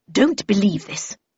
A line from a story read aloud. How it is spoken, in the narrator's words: murmured Miss Havisham